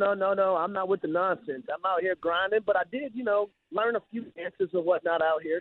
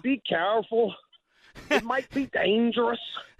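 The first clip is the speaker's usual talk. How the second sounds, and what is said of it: Imitated Irish driver's accent. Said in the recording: “out here in Dublin, Ireland ... My driver ... I'm going to say it in his accent.”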